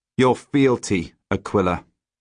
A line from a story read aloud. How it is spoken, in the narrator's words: he says flatly